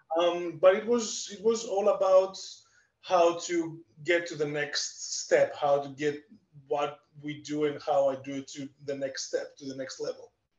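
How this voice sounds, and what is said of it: Greek accent. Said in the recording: “Obviously, I'm Greek. You can definitely tell from my accent.”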